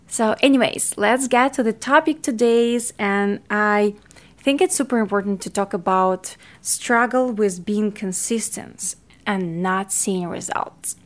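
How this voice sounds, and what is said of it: Ukrainian-accented English. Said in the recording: “I'm not a Native American speaker, so you're going to hear a lot of my weird Ukrainian accent, because I was born in Ukraine”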